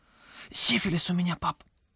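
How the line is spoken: Blurted in a whisper. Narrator (Russian): Шепотом вытолкнул сын

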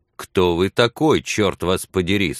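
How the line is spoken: Plain. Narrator (Russian): спросил Билли

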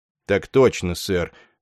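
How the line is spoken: Mumble. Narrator (Russian): промямлил полковник Шайскопф

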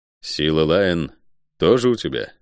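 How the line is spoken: Dry, muffled question. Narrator (Russian): сухо спросил я из-под капюшона

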